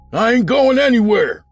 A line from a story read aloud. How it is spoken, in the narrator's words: Fred shouted back